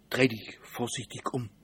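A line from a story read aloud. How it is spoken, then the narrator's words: Whisper. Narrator (German): flüsterte Simon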